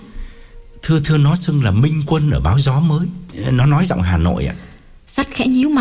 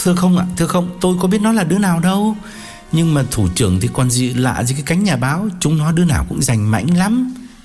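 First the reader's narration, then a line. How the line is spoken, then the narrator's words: Frightened. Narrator (Vietnamese): Thảo sợ hãi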